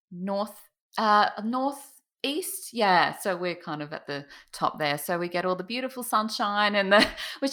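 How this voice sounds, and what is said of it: Australian accent. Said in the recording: “I'm in Queensland, Australia ... Don't know if my accent kind of comes out a bit more there”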